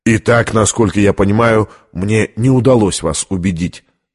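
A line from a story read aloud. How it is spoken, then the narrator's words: Plain. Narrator (Russian): сказал Лэндон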